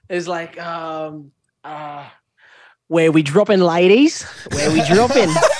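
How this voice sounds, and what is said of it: Put-on accent, well done. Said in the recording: “That's a really good accent.”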